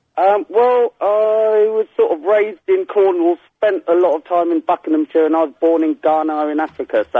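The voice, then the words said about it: Mixed, hard-to-place English accent. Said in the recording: “Where's your accent from... a bit of a mix... it's all over the shop. I'm trying to place it, and I can't make head and the tail of it.”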